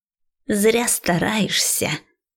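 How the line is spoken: Hissed through gritted teeth. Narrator (Russian): Скрипя зубами, прошипел Ван Бол

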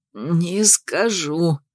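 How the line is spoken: Strangled wheeze. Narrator (Russian): сдавленно просипел тот

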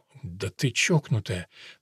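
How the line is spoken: Said quietly. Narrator (Russian): Негромко сказал

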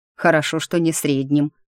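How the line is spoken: Snort. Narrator (Russian): хмыкнул

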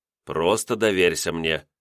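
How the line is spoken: Calm request. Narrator (Russian): спокойно попросил я

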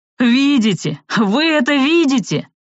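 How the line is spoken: Exclaimed. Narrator (Russian): воскликнул

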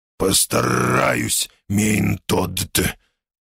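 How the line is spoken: Hoarse reply. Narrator (Russian): с хрипом отозвался я

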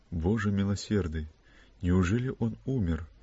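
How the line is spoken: Whisper. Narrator (Russian): прошептала

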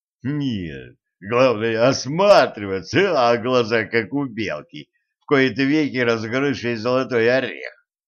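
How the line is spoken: Barely speaking through laughter. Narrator (Russian): еле проговорил Кощей сквозь смех

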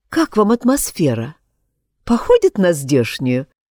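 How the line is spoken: Attempted joking tone. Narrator (Russian): Постаралась пошутить она

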